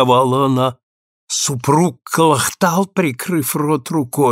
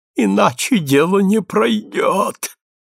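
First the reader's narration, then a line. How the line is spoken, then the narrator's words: Breathless, strained. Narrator (Russian): выдавил Кобес, задыхаясь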